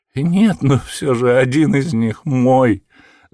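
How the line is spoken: Whimpering. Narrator (Russian): захныкал человек

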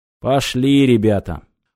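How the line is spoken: Grumbled. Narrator (Russian): пробурчал

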